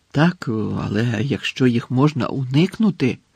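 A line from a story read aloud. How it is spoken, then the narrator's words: Mutter. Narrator (Ukrainian): пробурмотів Гаррі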